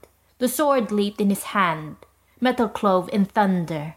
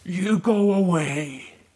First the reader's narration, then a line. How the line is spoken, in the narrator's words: groaned Watcher